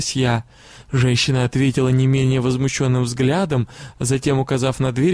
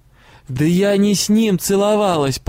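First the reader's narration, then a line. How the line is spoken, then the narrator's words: Almost shouting. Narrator (Russian): почти закричала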